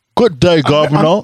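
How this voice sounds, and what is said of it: Put-on British accent. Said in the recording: “the British accent”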